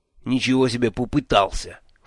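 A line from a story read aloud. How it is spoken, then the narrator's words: Snorting. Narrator (Russian): фыркнул Джуфин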